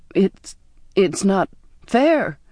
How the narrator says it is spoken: I stammered

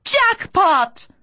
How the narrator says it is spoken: people screamed

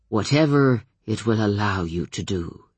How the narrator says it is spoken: he said in an odd tone

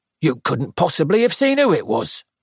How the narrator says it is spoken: said the inspector sharply

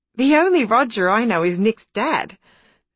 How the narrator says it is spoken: said Alice, with a little laugh because Nick's dad was a little laughable

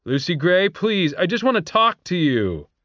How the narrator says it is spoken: he shouted

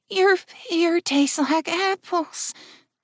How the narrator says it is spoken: groaned Jill in an almost incoherent voice

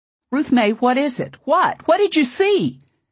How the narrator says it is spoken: In my panic, I think I must have screamed those words at her

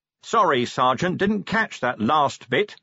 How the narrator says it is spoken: said Vimes loudly

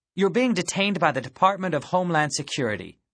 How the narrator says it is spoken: the woman snapped

